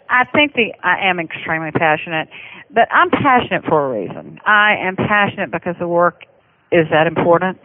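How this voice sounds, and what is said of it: Fast-talking Southern American accent. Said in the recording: “my Southern accent ... when you talk fast and Southern ... I've never managed to lose my accent”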